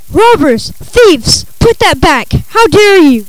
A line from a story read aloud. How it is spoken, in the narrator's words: When he saw his treasure being carried out the gate, he screamed